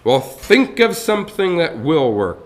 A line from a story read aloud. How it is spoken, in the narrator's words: the mayor thundered